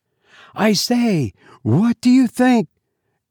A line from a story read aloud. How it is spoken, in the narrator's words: cried a girl's voice